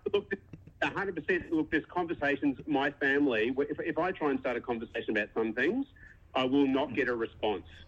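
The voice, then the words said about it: Australian accent. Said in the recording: “I don't know if you picked up from the accent, I'm Aussie”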